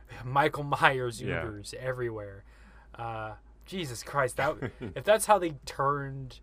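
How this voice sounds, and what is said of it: Usual voice. Nothing is said of it.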